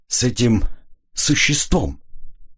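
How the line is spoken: Hesitant, forced out. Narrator (Russian): Граф помялся и выдавил из себя

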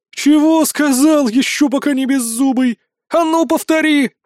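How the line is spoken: Thunderous voice. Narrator (Russian): прогремела

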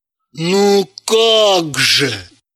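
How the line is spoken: Ashamed exclamation. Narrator (Russian): С чувством стыда за Далилу воскликнул он

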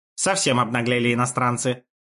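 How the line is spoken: Grumbling. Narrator (Russian): проворчал Исида

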